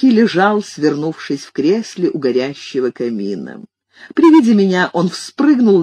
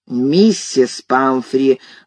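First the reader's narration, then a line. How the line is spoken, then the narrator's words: Stern exclamation. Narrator (Russian): грозно воскликнул я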